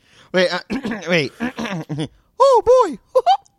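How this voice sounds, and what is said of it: Mickey Mouse cartoon voice impression. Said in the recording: “Is that your Mickey impression?”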